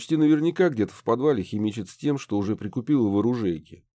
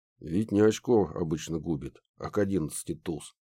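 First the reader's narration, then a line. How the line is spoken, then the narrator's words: Muttered under breath. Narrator (Russian): пробурчал я себе под нос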